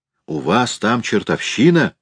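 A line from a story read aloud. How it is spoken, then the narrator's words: Forced calm question. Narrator (Russian): спросил Экланд, стараясь говорить спокойно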